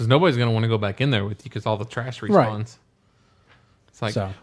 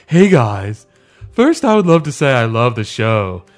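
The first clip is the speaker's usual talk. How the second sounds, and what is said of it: Comic character voice. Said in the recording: “I'm going to read it in my Mater D voice.”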